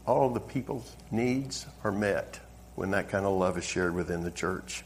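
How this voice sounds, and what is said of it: Southern American accent. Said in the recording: “I'm originally from the South. I know you couldn't tell by the accent.”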